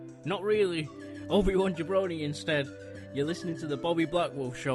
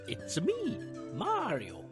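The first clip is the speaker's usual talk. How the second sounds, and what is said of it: Poor Mario character voice impression. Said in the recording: “Sorry for the terrible impression, by the way, Charles Martinet. I tried.”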